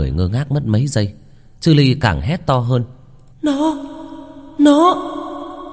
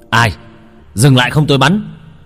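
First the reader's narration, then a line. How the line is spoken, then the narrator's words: Sharp loud shout. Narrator (Vietnamese): Tiếng quát vang lên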